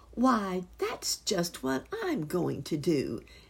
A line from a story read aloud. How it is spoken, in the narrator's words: exclaimed Fido Flip-Flop